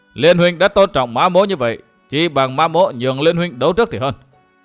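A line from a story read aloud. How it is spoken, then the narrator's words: Laughing loudly. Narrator (Vietnamese): Mã Thiên Lý cười lớn nói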